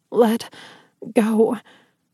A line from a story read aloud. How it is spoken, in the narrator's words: I croaked